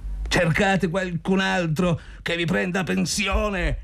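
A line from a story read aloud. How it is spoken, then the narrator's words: Shout. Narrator (Italian): gridò Zotov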